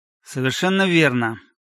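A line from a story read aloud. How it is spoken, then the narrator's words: Displeased tone. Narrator (Russian): подтвердил полковник недовольным тоном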